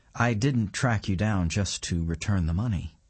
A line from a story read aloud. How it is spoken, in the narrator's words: he says